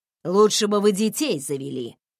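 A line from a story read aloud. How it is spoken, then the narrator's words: Grumbling mutter. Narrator (Russian): буркнула она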